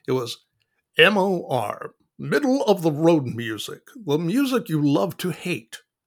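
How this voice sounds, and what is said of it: Impression of a radio host. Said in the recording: “I'll do my best Jeff Krause impression”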